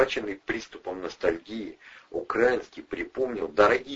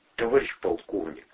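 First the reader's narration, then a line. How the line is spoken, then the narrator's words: Timid. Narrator (Russian): робко начал следователь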